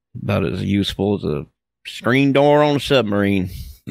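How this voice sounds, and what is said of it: Put-on NASCAR-style Southern accent. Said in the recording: “that's a proper accent for you. Almost a NASCAR accent.”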